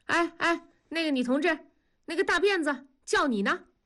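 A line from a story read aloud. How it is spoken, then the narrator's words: Calling out. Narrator (Chinese): 喊住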